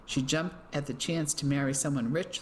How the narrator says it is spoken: Ellie replied

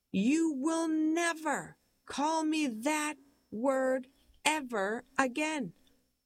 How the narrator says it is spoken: she yells

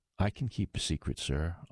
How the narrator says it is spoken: answered

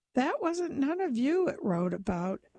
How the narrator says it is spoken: he laughed to show that he had been right all the time

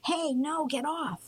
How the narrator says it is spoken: Amir hollered

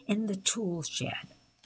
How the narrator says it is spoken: he sneered

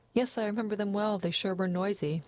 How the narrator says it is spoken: Catherine laughed a little nervously

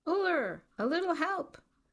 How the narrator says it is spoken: A skier in the chair in front of them began to shout

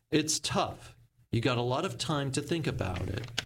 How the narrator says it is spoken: May said

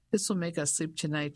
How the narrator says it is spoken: she said, laughing

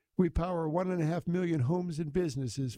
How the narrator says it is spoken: Ford said

